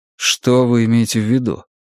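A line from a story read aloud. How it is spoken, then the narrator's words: Even, soft voice. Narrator (Russian): Кларет заговорил, голос его звучал ровно и мягко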